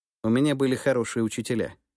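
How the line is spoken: Plain. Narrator (Russian): ответил я

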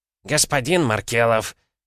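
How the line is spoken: Bark. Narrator (Russian): рявкнул Гомельский

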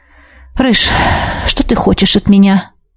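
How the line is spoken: Tired question. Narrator (Russian): устало спросила у него

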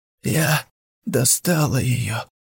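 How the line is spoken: Hoarse. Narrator (Russian): прохрипела она

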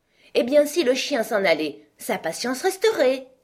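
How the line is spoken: Queen's exclamation. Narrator (French): s'exclama la Reine

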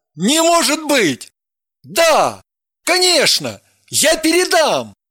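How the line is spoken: Reassuring. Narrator (Russian): успокоил ее Евгений

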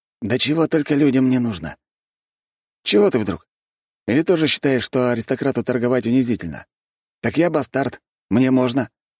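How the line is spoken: Carefree tone, hidden tension. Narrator (Russian): Говорит он беззаботным тоном, но напряжен так, что скрыть это не в состоянии

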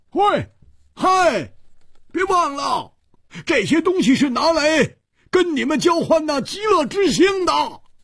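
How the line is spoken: Loud. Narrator (Chinese): 胡铁花大声地说

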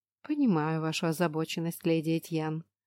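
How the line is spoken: Calm reply. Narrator (Russian): спокойно отозвалась храмовница

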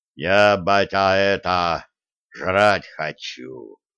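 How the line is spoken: Booming rumble. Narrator (Russian): прогудел Бьорн

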